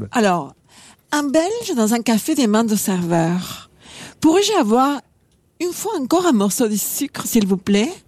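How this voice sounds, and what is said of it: Attempted Belgian French accent. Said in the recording (French): “De prendre l'accent belge, qu'on rigole ... je ne suis pas capable de l'imiter”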